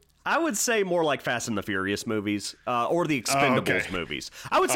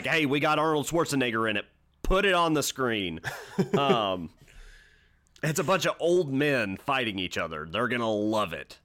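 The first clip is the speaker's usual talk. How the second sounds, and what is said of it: Hollywood producer impression. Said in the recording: “That was my impression of a Hollywood producer.”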